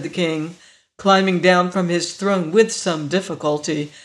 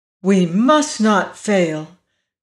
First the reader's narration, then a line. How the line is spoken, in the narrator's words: cried Ozma courageously